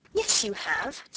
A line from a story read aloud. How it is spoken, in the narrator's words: said Sarah cheerfully